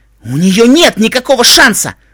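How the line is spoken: Barked. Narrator (Russian): рявкнул

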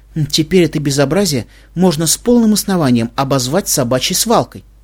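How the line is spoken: Grumbling. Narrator (Russian): буркнула Твай

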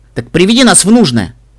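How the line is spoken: Irritated reply. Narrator (Russian): раздраженно ответила

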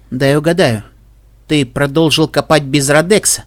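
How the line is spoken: Dry unpleasant rasping snort. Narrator (Russian): Гуль снова хмыкнул, сухо и неприятно, как будто хрип умирающего пони

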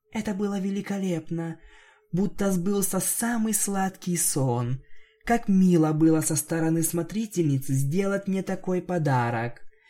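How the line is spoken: Quiet. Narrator (Russian): она тихо произнесла

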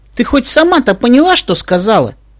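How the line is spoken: Woman laughing. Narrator (Russian): засмеялась женщина

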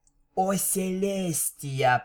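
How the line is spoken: Whisper. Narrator (Russian): прошептала

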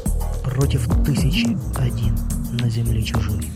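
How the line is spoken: Quiet whisper. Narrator (Russian): негромко прошептал

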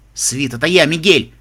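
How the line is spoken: Man shouting. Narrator (Russian): крикнул мужчина

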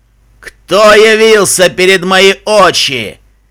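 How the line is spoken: Sudden booming roar. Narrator (Russian): Проревел вдруг громогласный голос

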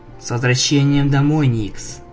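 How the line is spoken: Tender. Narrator (Russian): нежно сказала Твайлайт

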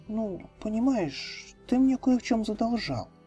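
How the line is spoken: Quiet mumble. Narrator (Russian): тихонько пробормотала бурая пони

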